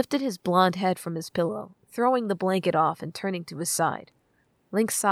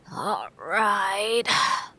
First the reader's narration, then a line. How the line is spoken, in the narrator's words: Link moaned